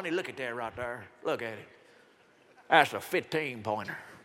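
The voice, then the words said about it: Put-on Southern US accent. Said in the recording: “I did it in the southern accent so you could relate.”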